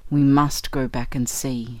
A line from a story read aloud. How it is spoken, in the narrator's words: said Shorthouse briefly in a low tone